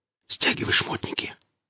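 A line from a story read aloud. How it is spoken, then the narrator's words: Whispered order. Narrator (Russian): распорядился шепотом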